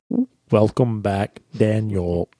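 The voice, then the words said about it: Robotic voice-synthesizer style voice. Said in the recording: “good voice synthesizer impression”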